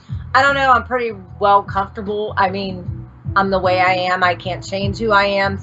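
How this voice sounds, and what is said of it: Pittsburgh, Pennsylvania accent. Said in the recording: “a lot of people will make fun of my accent sometimes because I'm from Pittsburgh, Pennsylvania”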